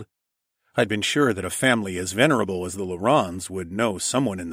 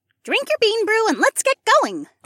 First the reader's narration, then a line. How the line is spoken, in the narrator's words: Ilara chirped